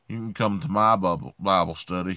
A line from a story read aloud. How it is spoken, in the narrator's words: offered in a thick southern drawl